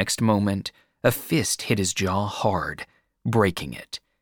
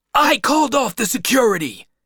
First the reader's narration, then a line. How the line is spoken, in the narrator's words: the huge man shouted, losing his temper